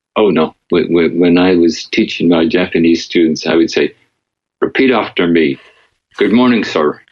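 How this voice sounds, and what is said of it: Distinctive Northern Irish accent. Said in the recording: “You've still got quite a distinctive Northern Irish brogue”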